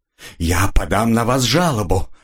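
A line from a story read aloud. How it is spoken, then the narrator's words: Breathed out. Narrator (Russian): выдохнула она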